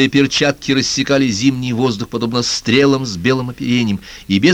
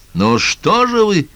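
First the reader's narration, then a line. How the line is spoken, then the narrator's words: Shouting. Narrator (Russian): крикнул Оми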